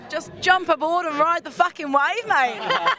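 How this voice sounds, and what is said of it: Put-on Australian accent. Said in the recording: “Fucking in Australian accent.”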